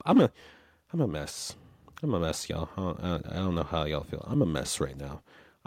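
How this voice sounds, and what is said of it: Hoarse, fading voice. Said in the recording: “I'm losing my voice as I speak”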